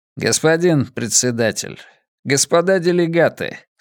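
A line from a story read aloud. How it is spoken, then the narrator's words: Calm retort. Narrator (Russian): спокойно парировал Рэй Диас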